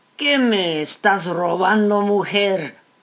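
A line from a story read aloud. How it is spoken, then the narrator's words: Plain. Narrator (Spanish): preguntó él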